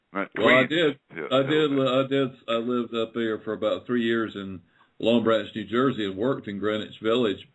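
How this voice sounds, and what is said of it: Southern hill-country accent. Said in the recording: “you have that Hills accent... you sound like you're from like the hills of Virginia or something”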